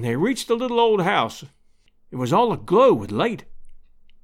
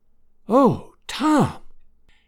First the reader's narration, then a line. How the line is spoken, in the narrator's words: whispered Aunt Sally, tears of happiness streaming down her old face